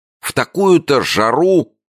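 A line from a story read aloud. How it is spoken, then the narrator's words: Exclaimed. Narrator (Russian): воскликнул Джо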